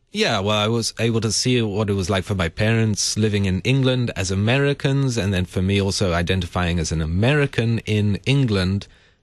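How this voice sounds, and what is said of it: Not entirely American, slightly Sri Lankan accent. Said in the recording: “I don't have an entirely American accent ... A little bit of an accent ... I sound slightly Sri Lankan ... You do. I was noticing that ... I love the accent.”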